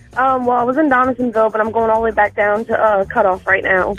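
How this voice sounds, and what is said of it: Cajun accent. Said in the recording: “Love that accent. I love Cajun accent.”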